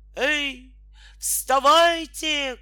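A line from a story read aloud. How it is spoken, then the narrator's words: Shout. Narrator (Russian): крикнул садник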